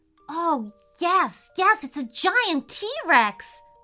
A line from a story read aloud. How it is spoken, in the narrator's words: he cried